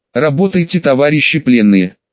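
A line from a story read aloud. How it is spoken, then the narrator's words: Calm. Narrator (Russian): спокойно сказал совет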